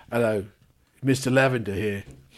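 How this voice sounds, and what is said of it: Put-on British accent. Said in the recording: “it has got to be a British accent”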